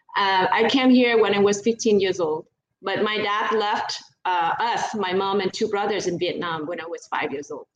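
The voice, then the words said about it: Vietnamese accent. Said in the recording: “I was born and raised in Vietnam. And so that's why I still have the accent, as you can tell.”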